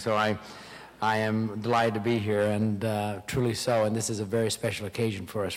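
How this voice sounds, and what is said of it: Hoarse, strained voice. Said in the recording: “I have laryngitis ... I lost my voice”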